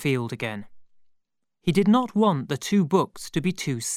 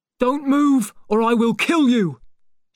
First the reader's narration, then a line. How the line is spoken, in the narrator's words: shouts the man